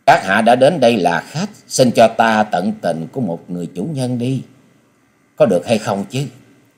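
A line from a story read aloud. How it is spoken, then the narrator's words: Gentle woman. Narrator (Vietnamese): Nữ hội chủ giọng nhẹ nhàng nói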